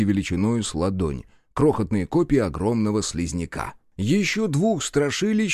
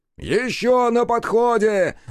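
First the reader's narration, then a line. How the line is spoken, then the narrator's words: Yelled. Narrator (Russian): заорал Бучило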